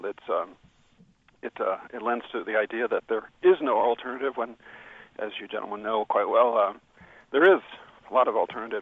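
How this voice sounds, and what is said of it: Voice giving out, strained. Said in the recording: “I'm losing my voice here for some reason”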